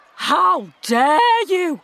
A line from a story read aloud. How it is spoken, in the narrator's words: exclaimed Camilla